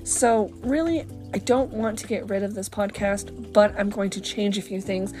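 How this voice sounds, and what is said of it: Unsteady voice going in and out. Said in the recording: “my voice is going in and out. I am suffering from allergies right now”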